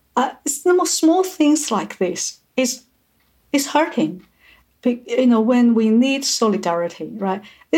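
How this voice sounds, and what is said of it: English with a noticeable foreign accent. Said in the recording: “whenever I speak English, people can tell I speak English with an accent”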